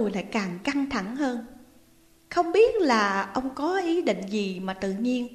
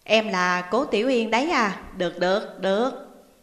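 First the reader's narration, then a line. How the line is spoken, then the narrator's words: Friendly smiling voice. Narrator (Vietnamese): Ông lập tức mỉm cười thân thiện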